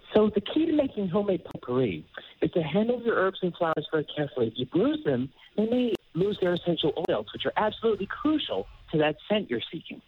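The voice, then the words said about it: Imitates another person's voice. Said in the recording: “That's such a good celebrity impersonation ... Deadpool impersonator”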